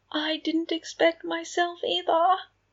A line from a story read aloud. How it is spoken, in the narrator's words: Remus said under his breath